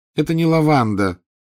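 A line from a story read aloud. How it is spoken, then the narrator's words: Weary. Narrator (Russian): устало сообщила она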